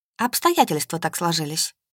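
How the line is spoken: Dry flat voice. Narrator (Russian): проговорила сухо

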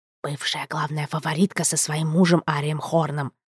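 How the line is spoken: Hissed in ear. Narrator (Russian): прошипела на ухо Финистра

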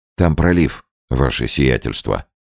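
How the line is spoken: Calm and respectful. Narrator (Russian): спокойно и почтительно ответил Невельской

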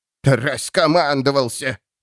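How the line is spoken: Old woman hissing. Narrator (Russian): прошипела старуха Мэй

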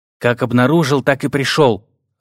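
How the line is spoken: Irritated reply. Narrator (Russian): раздраженно ответил принц, уразумев, что здесь его меча нет

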